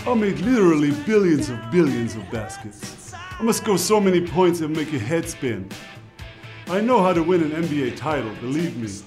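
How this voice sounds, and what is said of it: Donald Trump impression. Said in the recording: “Dirk Nowitzki doing his best Donald Trump impersonation”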